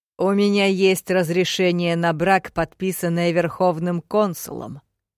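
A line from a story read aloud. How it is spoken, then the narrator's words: Growling. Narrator (Russian): прорычал он мне в лицо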